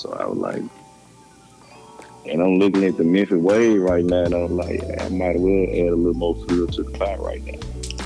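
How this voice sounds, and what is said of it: Strong Southern Memphis country accent. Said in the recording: “Y'all accent being so country is so different ... y'all accent and the way that y'all mix y'all lingo up”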